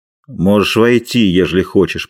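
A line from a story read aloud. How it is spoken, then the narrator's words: Grumbling hunchback. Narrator (Russian): проворчал Горбун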